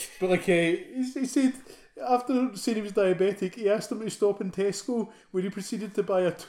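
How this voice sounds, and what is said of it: Usual voice. Nothing is said of it.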